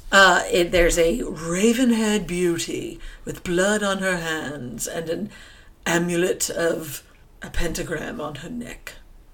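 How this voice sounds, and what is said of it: Unusual put-on accent. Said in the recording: “That was an interesting accent choice you just made.”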